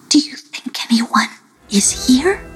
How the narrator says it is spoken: whispered Bukutoshi

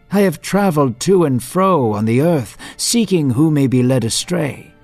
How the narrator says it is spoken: Satan said

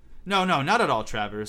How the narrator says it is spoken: said Hermione quickly

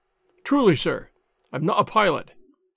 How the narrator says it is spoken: said Allen

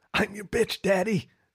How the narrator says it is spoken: he says, his voice hoarse with pain and pleasure

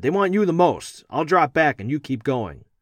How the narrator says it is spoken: Ronnie shouted

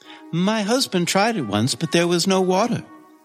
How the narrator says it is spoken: she said sadly

